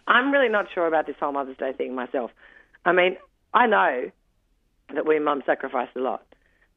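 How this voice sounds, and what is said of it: Congested, stuffy-sounding voice. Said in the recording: “excuse my voice. It's the hay fever from all the flowers around.”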